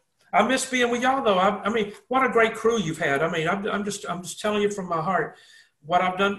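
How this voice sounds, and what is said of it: Southern American accent. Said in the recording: “I've got the Southern accent”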